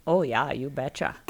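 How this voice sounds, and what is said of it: Exaggerated Minnesota accent. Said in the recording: “You had to throw the accent in there. Yes, we have an accent.”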